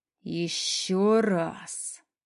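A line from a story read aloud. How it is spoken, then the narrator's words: Through gritted teeth. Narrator (Russian): цедит сквозь зубы Никита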